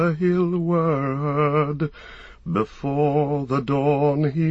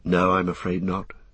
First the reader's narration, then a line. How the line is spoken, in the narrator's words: said Frodo